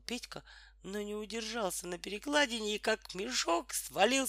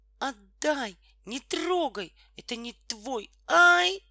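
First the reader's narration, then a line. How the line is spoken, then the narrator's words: Sudden plaintive cry. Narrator (Russian): вдруг жалобно закричала Тома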